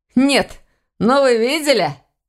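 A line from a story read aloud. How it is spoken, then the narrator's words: Laughing, unembarrassed question. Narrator (Russian): Смеясь, спросил он у сестры Войтаха, ничуть не смущаясь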